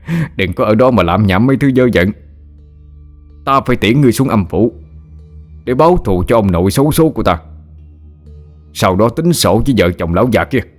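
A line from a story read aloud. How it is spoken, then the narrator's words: Loud vengeful laugh. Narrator (Vietnamese): Tú ngửa mặt lên trời cười lớn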